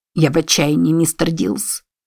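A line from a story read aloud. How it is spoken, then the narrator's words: Quietly said. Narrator (Russian): тихо сказал ему Бент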